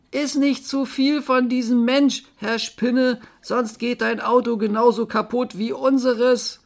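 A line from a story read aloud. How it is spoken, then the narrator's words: Called out. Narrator (German): Agent 645 rief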